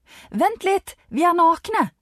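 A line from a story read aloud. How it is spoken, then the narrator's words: Shouted. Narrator (Norwegian): roper Anita ut til deg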